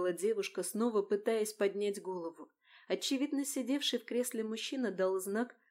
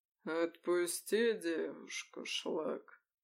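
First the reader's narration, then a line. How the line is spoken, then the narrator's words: Lazy velvety command, rumbling notes. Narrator (Russian): лениво велел мужчина, и в бархатном голосе раздались неприятные ракочущие нотки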